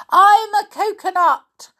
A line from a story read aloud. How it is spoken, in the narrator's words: she shouted at the very top of her voice